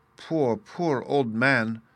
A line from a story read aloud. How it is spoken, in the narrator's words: exclaimed a little voice, half choked with sobs